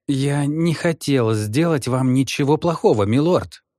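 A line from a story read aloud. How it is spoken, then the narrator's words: Mumble. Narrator (Russian): промямлил он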